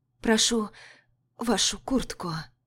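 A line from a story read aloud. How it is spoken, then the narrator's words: Hoarse whisper. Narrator (Russian): пояснила, сбившись на хриплый шепот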